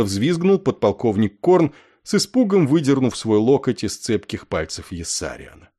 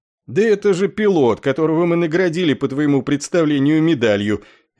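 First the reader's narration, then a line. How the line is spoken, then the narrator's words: Cheerful, laughing. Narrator (Russian): весело рассмеявшись, объяснил ему полковник Кошкарт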